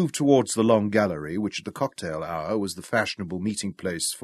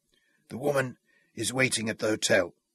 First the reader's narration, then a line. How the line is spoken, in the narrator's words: he whispered huskily